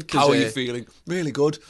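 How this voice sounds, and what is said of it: Impression of a colleague's voice. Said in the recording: “my Ben impression”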